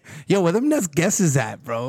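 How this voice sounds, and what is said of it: Put-on Brooklyn Bronx accent. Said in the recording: “It's that Brooklyn Bronx accent, bro.”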